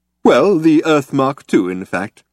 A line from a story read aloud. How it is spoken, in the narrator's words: said Slarty Bartfast cheerfully